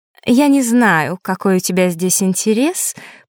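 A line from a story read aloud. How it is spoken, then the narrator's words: Mocking. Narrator (Russian): произнесла Маришка, насмешливо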